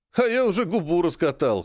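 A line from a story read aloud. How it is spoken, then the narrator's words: Short laugh. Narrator (Russian): хохотнул Серый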